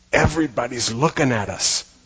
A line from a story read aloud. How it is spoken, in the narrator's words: Richie stage whispers